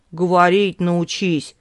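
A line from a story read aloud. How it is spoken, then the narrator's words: Scoffing grunt. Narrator (Russian): хмыкнул Сергей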